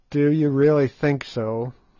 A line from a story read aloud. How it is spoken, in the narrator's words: said Good gloomily